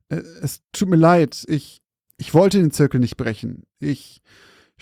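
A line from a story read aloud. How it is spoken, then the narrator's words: Older man stammering apologetically. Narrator (German): stammelte der ältere Mann vor sich hin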